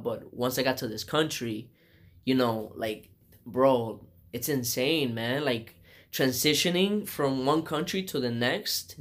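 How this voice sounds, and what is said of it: Non-native English accent. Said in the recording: “you can tell that I have an accent ... I still have an accent”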